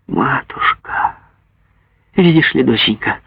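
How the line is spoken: Quiet, infinitely tender. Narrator (Russian): тихонько, с бесконечной нежностью повторяла

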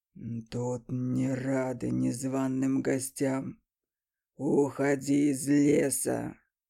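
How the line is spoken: Beast's growl. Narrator (Russian): Прорычал зверь

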